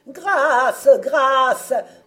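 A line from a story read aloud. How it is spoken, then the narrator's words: Trembling cry. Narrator (French): s'écrie le larron tout tremblant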